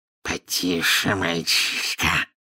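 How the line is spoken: Serpentine hiss. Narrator (Russian): прошипел Мракс на змеином языке

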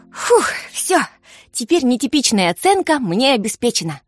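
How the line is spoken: Happy sigh. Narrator (Russian): счастливо вздохнула Вера

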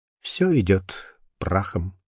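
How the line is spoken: Barely audible murmur. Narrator (Russian): с его уст чуть слышно сорвалось

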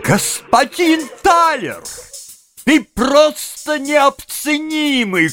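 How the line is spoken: Shout. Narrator (Russian): крикнул мистер Пенни

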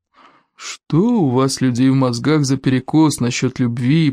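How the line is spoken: Grumbling. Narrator (Russian): проворчал гордость

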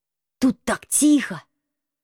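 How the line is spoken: Whisper. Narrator (Russian): снова прошептал крыса

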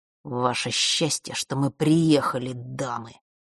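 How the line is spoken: Through gritted teeth. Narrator (Russian): процедил Марк

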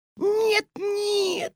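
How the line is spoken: Squealing. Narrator (Russian): запищала госпожа Жадность

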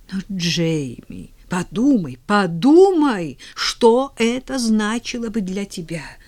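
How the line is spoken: Trembling exclamation. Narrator (Russian): С дрожью в голосе воскликнула миссис Мерфи

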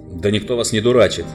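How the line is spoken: Angry. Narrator (Russian): сказал Тириан сердито

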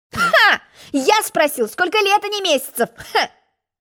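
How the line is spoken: Laughing. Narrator (Russian): рассмеялся Желток-Белток

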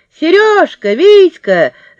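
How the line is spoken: Sudden shout. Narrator (Russian): закричала сразу Люська

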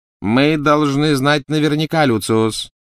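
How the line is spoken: Cold, clear shout. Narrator (Russian): крикнула она мужу холодным ясным голосом

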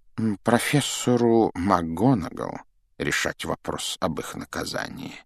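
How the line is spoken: Calm. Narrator (Russian): спокойно проговорил Дамблдор

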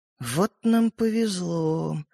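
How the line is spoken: Dejected voice. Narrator (Russian): упавшим голосом проговорила девушка

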